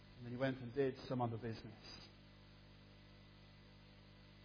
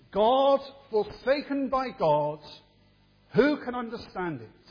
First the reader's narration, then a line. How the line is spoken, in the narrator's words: threw his hands in the air and exclaimed